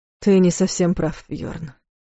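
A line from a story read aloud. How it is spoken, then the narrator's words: Quiet. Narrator (Russian): сказал тихо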